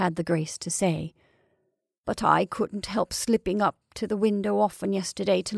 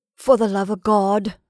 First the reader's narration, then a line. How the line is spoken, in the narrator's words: William cried with coarse emotion